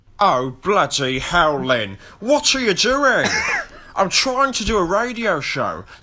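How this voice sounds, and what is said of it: Good Alan Partridge impression. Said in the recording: “the TV comedy character Alan Partridge ... That is quite a good Partridge, to be fair ... it's not a bad Partridge at all”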